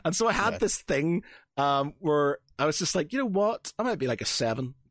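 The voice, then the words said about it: Noticeable non-English regional accent. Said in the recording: “oh, it's your accent. I love that ... because I've got an accent, that gives me an extra point. So any English 7”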